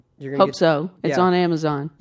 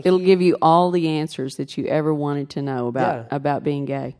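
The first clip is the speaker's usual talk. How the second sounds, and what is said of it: Sarcastic delivery. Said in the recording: “That was sarcasm.”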